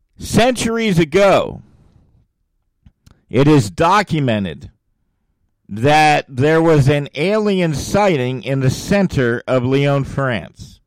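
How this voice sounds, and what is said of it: Slow, deliberate speech. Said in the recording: “I'm going to say it slowly”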